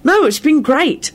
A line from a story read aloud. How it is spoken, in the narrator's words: Harry replied cheerfully